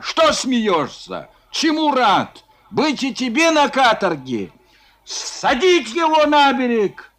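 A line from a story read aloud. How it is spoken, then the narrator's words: Sudden yell. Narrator (Russian): Вдруг заорал Робустов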